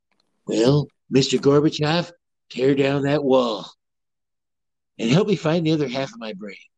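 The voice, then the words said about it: Imitates another person's voice. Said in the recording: “my Ronald Reagan impersonation”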